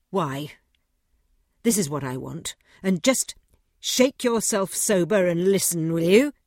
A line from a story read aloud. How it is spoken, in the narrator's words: said Godfrey savagely